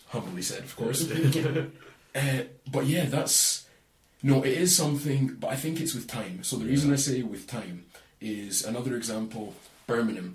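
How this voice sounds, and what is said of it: Aberdonian Scottish accent. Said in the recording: “My accent, the twangs, does come out at parts... Aberdonians have a beautiful accent.”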